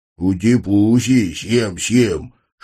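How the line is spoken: Playful growl. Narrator (Russian): шутливо рычал я

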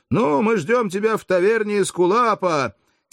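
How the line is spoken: Shouted after him. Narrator (Russian): Один из сопровождавших приятелей закричал ему вслед

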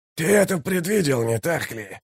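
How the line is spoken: Hissed. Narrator (Russian): прошипел Каллор

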